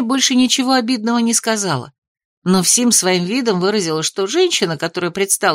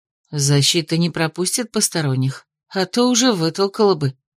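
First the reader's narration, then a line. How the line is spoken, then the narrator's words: Uncertain remark. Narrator (Russian): заметила наемница, но как-то неуверенно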